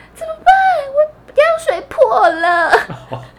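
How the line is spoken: Tearful voice. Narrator (Chinese): 我就在房间里用哭腔说

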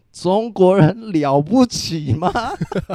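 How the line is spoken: Drunken shouting. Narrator (Chinese): 两个都喝得很醉……高声疾呼

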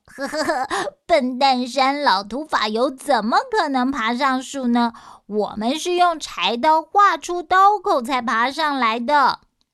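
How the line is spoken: Happy, laughing. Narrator (Chinese): 二弟很高兴，竟然笑着说

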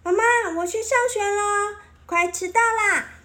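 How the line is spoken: Loud shout. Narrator (Chinese): 小珍珠嘴里还一面大叫

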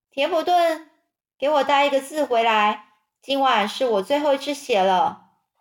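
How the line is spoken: Calling from behind. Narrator (Chinese): 夏绿蒂在后面叫他

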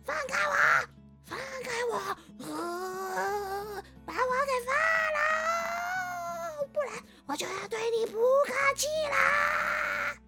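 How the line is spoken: Loud, frightened struggling. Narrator (Chinese): 这个鬼很害怕的在宋定伯的背上不断的挣扎，还很大声的说

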